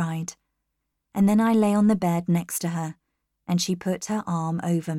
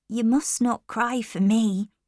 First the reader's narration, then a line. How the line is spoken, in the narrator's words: she said